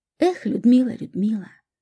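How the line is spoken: Wistful sigh. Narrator (Russian): вздохнул он, вспомнив первую жену

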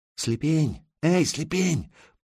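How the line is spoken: Soft call from afar. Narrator (Russian): позвали негромко с той стороны оврага

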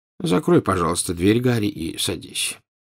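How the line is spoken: Tired. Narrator (Russian): устало сказал Дамблдор

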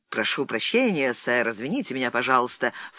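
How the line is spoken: Ingratiating interruption. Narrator (Russian): вкрадчиво прервал их капитан Трефезен

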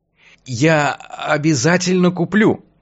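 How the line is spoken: Strained, choked voice. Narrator (Russian): пообещал я сдавленным голосом

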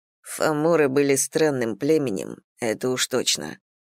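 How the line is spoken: Grumbling. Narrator (Russian): проворчал Колман

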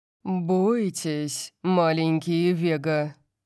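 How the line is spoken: Purring. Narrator (Russian): промурлыкал он

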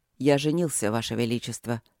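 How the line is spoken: Calm reply. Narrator (Russian): также спокойно ответил герцог Дармоншир

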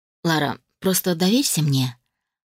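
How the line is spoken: Soft but insistent request. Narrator (Russian): попросил он мягко, но при этом настойчиво

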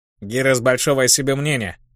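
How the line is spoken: Snorting remark. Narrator (Russian): хмыкнул Краулер

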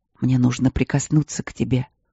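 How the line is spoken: Soft whisper. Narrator (Russian): прошептал тихо

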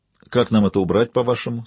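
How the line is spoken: Calm question. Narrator (Russian): спросил Жак довольно спокойно

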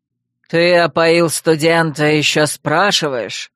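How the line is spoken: Irritated growl. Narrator (Russian): Раздраженно отозвался ректор и прорычал

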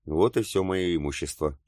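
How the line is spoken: Wistful sigh. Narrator (Russian): тоскливо вздохнула Герда

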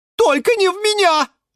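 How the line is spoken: Crowd shouting together. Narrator (Russian): закричали все сразу

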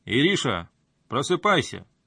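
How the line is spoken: Loud. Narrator (Russian): громко сказал он

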